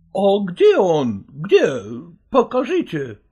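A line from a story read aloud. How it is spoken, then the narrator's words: Exclaimed. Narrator (Russian): воскликнул Штрик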